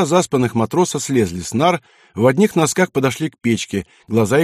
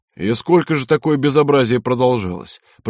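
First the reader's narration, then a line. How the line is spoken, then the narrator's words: Deep bass voice. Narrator (Russian): пробасил Буслаев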